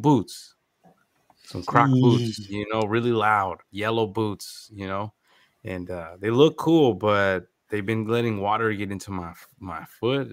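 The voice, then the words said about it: Slightly congested voice. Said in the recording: “I'm a little congested. I don't know if you can hear it in my voice”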